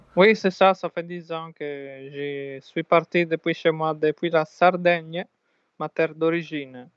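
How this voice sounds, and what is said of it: Italian accent speaking French. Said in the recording (French): “comme vous pouvez l'entendre à son accent, euh, alors ... c'est un Italien”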